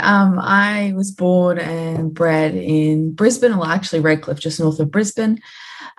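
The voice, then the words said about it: Australian accent. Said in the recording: “You've obviously got an Aussie accent.”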